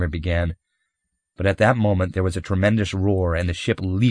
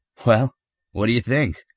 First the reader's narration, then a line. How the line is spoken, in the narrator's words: Winters said nervously